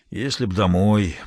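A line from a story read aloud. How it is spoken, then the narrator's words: Grumbling. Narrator (Russian): проворчал Мейсон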